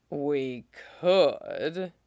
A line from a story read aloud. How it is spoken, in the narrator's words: he purred